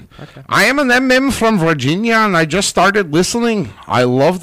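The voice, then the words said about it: Poor attempt at Irish accent. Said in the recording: “That is not an Irish accent. ... I'm trying. ... That's horrible.”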